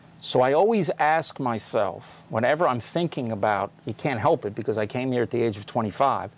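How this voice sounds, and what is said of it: American accent. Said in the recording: “I was born and raised, as you can hear from my accent, in the United States”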